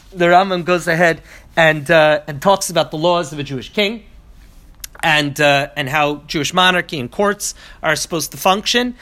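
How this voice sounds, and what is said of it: Voice congested from a cold. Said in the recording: “I have a little cold.”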